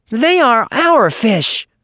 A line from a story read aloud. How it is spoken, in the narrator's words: said Little Joe fiercely